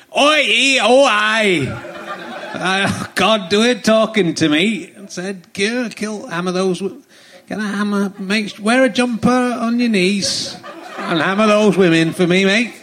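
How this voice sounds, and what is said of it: Impression of Peter Sutcliffe. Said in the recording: “That's the Peter Sutcliffe, the Yorkshire Ripper there ... it's uncanny. It's almost like he was in the room.”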